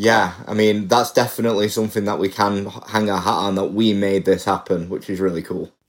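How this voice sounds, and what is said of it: British accent. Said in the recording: “in the UK, where he's from ... As you can tell from my accent.”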